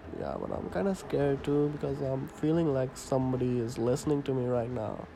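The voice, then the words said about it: Accent between Indian and Canadian. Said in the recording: “my accent is not Canadian. Yes, my accent is not completely Indian either, because I am in the middle of everything.”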